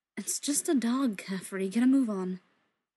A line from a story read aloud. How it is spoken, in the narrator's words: he sighs, says